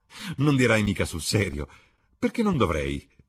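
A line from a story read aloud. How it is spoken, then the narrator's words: Laughing exclamation. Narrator (Italian): esclamò Basil Hallward ridendo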